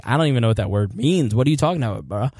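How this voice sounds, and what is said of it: Impression of a confused Iraqi. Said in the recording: “they're like... I think I nailed that impression there”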